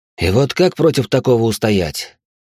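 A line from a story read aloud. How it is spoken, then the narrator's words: Heavy sigh. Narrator (Russian): тяжело вздохнул я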